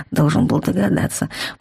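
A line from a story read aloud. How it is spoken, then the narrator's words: Muttered. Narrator (Russian): пробормотал магистр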